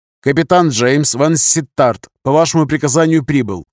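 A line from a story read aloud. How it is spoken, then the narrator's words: Crisp loud military report. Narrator (Russian): Четко и громко на хорошем русском языке отрапортовал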